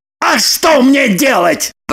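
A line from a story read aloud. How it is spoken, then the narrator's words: Thundering voice. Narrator (Russian): прогремел Роман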